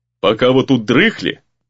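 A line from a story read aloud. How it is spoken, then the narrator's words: Meaningful tone. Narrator (Russian): Многозначительно продолжил гризли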